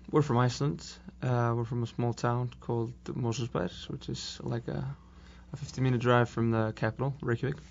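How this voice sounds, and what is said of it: Non-American accent. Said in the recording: “accent at the beginning might realize you might not be exactly from Austin, Texas”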